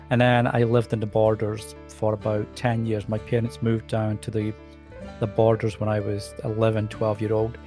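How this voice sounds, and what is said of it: Soft Scottish accent. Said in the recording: “I obviously have a Scottish accent. but I find it's a very soft accent compared to a lot of accents that you can hear ... it's gotten softer over the years”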